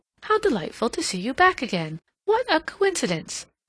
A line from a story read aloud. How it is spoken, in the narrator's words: she exclaimed